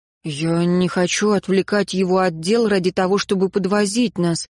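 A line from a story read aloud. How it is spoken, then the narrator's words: Mumbled. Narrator (Russian): промямлил Райан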